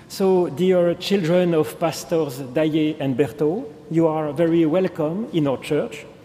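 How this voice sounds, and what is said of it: English with strong French accent. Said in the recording (French): “si je peux me faire comprendre avec trois mots d'anglais ... vu mon accent, qui vraiment émerveille tout le monde”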